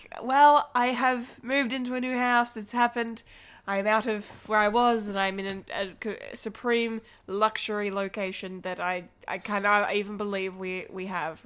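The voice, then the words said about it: Nasal, congested sick voice. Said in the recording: “my nasally voice. I am sick a little bit”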